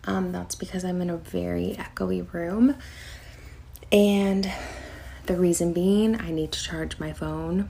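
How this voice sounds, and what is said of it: Quiet, almost whispering voice. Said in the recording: “I'm talking a little bit like quieter, so it might sound like I'm kind of at a whisper.”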